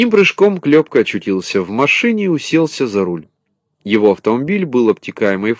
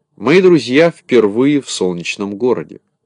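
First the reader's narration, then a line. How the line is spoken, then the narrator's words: Plain. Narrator (Russian): сказал Кубик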